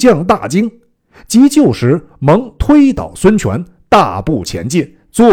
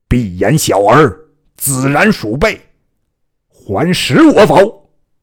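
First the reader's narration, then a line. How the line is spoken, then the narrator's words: Harsh angry scolding. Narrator (Chinese): 厉声大骂曰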